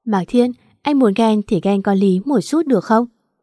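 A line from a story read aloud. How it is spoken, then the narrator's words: Laughing teasing. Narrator (Vietnamese): Diễm Nguyệt lại bật cười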